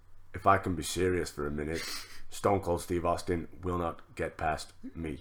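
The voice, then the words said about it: Robotic imitation of another person's voice. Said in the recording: “best Lance Storm impression ... It's like a fucking robot.”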